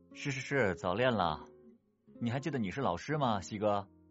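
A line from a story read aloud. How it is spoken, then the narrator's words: Exasperated joking. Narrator (Chinese): 盛旺满心的槽不知从何吐起，只得玩笑说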